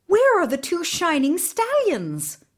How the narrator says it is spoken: Ivan cried

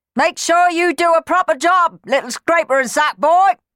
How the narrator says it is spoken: yelled Clem

